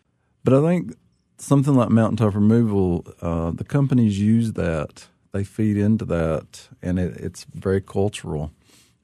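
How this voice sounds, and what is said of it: Appalachian accent. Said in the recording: “I kept my accent, but I never could get rid of it ... to have the markers of an Appalachian”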